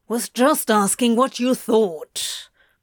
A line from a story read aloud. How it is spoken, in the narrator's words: Crowley growled angrily